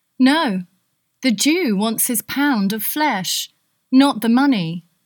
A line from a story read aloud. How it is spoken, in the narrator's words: Portia said